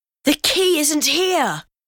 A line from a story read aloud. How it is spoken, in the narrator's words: Omri exclaimed